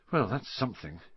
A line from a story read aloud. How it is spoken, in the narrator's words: Harry muttered to the others